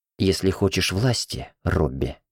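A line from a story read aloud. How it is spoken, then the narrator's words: Mumbling. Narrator (Russian): пробормотала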